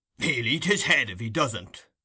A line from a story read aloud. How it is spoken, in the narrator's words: growled Mr